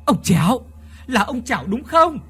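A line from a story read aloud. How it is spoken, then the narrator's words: Loud shout. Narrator (Vietnamese): miệng gào to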